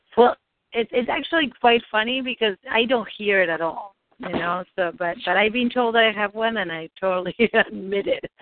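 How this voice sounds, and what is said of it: Noticeable accent, distinctive voice. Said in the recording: “I'm getting easy to tell when I speak because of my accent ... You have a very distinctive voice.”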